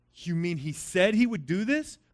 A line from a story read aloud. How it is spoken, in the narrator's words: Claudius asked